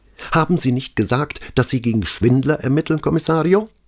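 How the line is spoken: Sharp retort. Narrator (German): versetzte sie so scharf

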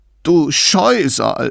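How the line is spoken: Sobbing. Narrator (German): schluchzte Clorinda

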